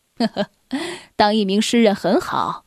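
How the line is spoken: Laughing. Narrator (Chinese): 船长笑了

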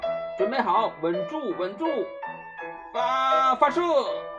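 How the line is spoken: Shouting. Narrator (Chinese): 巴克队长喊道

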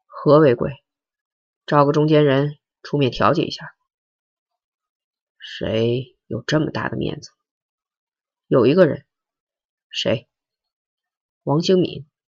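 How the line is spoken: Sighing. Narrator (Chinese): 周奉天……叹了一口气说

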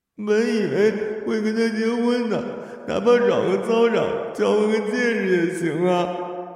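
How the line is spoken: Crying. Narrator (Chinese): 他哭着说

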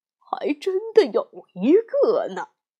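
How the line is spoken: Smiling old man. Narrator (Chinese): 九爷爷笑了笑说

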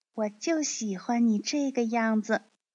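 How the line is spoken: Soft, gentle. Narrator (Chinese): 茉莉轻声对他说

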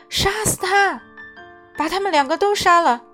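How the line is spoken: Dwarf, aggressive yelling. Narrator (Chinese): 另一个侏儒跟着叫嚣

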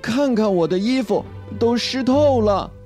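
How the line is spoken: Screaming. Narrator (Chinese): 劳拉尖叫

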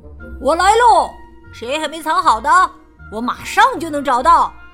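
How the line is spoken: Loud shout. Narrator (Chinese): 弗洛格大声喊道

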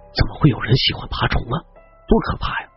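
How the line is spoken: Frightened, quiet. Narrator (Chinese): 肖安心有余悸，小声的说

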